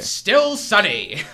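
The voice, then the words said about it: Low-pitched weatherman voice. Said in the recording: “good Garrett weatherman impression ... A little too low pitched”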